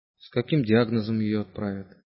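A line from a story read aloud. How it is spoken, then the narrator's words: Quiet question. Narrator (Russian): тихо спросил Симагин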